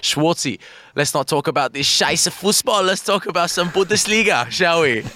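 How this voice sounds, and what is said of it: Put-on German accent. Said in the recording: “Oh, German accent.”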